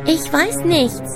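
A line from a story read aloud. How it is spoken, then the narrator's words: Plain. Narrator (German): antwortete Alice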